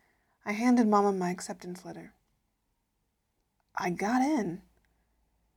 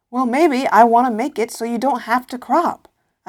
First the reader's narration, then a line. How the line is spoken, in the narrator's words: I yelled